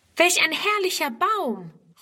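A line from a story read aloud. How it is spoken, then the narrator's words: Exclaimed immediately. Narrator (German): ruft Friedrun sogleich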